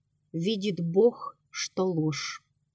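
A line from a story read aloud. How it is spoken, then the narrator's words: Firm. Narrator (Russian): твердо сказал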